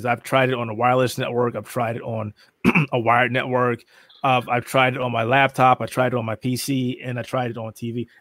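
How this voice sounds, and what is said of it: Hoarse, voice giving out. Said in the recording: “now I'm losing my voice again”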